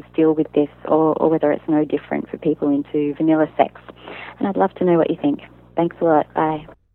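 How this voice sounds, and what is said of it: New Zealand accent. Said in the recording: “you have the sexiest Kiwi accent we've ever had on the podcast”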